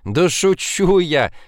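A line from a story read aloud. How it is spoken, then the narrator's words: Laughing. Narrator (Russian): засмеялась Женечка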